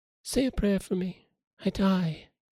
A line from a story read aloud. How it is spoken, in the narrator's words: whispered